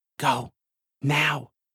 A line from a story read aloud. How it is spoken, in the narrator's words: she says, her voice no more than a whisper